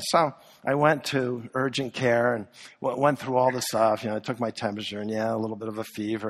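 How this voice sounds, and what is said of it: Hoarse, fading voice. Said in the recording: “I'm kind of losing my voice ... and a cough”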